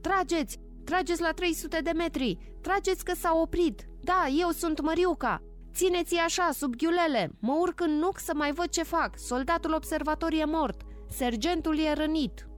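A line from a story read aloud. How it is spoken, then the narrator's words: Shouting. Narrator (Romanian): Măriuca a strigat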